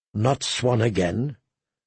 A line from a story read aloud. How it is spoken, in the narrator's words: Tyrion muttered